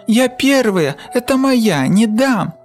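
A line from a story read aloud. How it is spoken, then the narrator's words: Fox's sudden shriek. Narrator (Russian): Вдруг взвизгнула лиса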